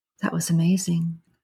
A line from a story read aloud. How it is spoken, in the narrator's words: she whispered